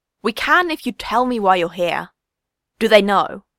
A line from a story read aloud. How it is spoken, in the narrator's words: Con snapped